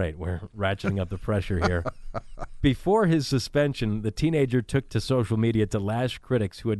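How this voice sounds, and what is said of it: Usual voice. Nothing is said of it.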